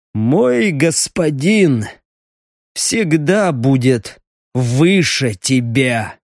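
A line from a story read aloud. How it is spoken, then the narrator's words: Wheezing. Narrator (Russian): просипел стриж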